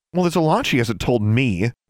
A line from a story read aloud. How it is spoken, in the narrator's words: Alexandra said hotly